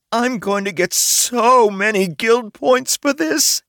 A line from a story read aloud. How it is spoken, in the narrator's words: happily squealed in a very undragon-like way